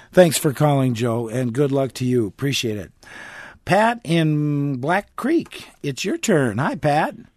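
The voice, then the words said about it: Slightly hoarse voice. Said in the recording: “A little hoarse, little hoarseness here.”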